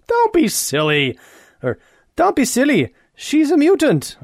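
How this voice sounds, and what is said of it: Attempted English accent, sounds Irish. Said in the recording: “I can't do an English accent right now. ... that's a little bit of Irish.”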